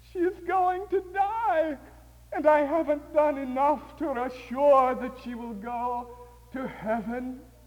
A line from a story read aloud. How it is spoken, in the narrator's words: her mother cried to herself